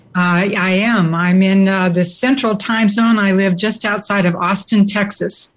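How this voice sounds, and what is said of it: American accent. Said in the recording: “I'm guessing you're in America by your accent”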